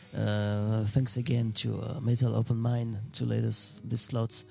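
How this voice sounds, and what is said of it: Heavy French accent in English. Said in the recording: “my very shitty English accent ... from France”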